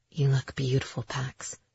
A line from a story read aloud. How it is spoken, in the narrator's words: he whispered